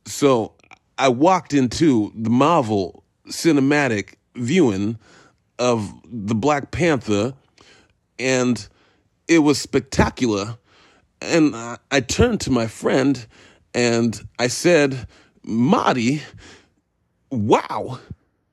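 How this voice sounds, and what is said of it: Bad Christopher Walken impression. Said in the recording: “my terrible Christopher Walken impression”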